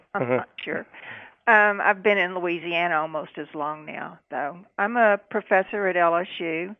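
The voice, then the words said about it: Texan accent. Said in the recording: “I am from Texas. My accent would probably tell you that.”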